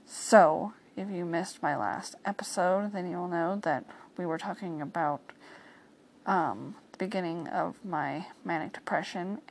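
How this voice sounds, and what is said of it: Strained, sick-sounding voice. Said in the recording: “my voice isn't at its best right now because it's kind of hard for me to talk”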